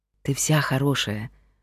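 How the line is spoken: Smiling whisper. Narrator (Russian): улыбнувшись, шепнул Герман

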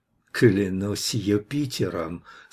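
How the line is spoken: Muttering through teeth. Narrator (Russian): сквозь зубы пробормотал он

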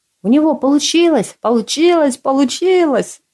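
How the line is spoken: Frantic screaming. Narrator (Russian): Меланхоличного По будто подменили, вопил теперь как резанный

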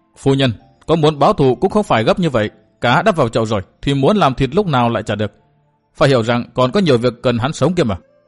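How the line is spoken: Stern. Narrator (Vietnamese): Nàng nghiêm nghị nói

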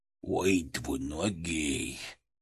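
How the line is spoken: Tragic whisper. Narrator (Russian): Голос Фырка упал до трагического шепта, как у древнегреческого хора перед финальной катастрофой

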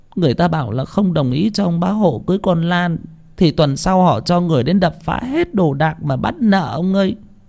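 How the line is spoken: Tearful whimpering woman. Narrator (Vietnamese): Bà Lành mếu máo

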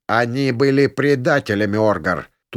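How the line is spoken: Half-demoness's barked shout. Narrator (Russian): рявкнула полудемонесса

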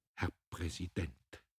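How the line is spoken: Unsteady whisper. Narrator (German): flüsterte er wankend

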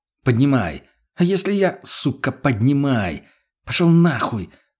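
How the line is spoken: Hiss. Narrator (Russian): прошипела та

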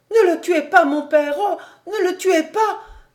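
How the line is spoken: Tearful cry. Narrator (French): s'écria Marie en pleurant

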